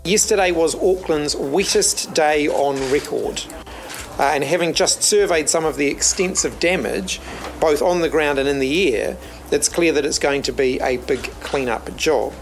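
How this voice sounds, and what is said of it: New Zealand accent. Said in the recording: “that's the country's new Prime Minister, Chris Hipkins. Get used to hearing that voice and that accent.”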